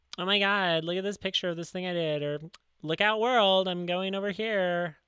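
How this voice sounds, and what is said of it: Mocking voice of a social media poster. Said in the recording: “I did this voice to describe how people talk on Facebook”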